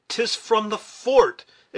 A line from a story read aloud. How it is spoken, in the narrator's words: exclaimed Hawkeye